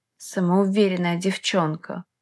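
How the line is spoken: Snort. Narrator (Russian): хмыкнул Макс

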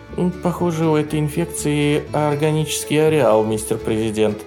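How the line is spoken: Timid announcement. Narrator (Russian): робко объявила Салли

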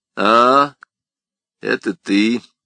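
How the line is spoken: Gloomy. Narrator (Russian): мрачно произнесла она

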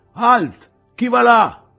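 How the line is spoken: Shouted challenge. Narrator (Italian): qualcuno gridò loro

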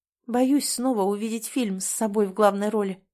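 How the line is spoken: Hoarse. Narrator (Russian): говорит хрипло

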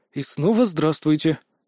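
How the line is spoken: Puzzled mutter. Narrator (Russian): озадаченно пробормотал я

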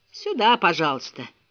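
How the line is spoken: Sighing. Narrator (Russian): вздохнул лакей

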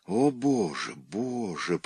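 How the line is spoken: Moan. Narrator (Russian): простонал Шпага

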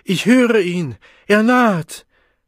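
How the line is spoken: Roared. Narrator (German): brüllte

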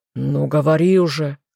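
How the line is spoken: Impatient growl. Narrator (Russian): нетерпеливо рыкнул лорд Карлтон

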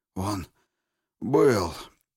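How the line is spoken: Hoarse wheeze. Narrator (Russian): прохрипел Егоров

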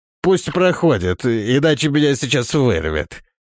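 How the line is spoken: Disgusted nasal command. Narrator (Russian): маг брезгливо зажал нос и гнусаве распорядился

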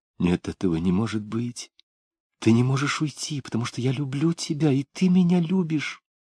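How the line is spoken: Bewildered whisper. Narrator (Russian): Растерянно шептала она

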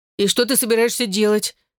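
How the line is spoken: Frightened question. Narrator (Russian): испуганно спросил Джонни Уолш

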